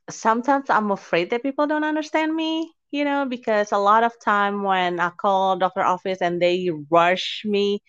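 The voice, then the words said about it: Non-native English speaker's accent. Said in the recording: “English is not my first language ... because of my accent ... a foreign English speaker”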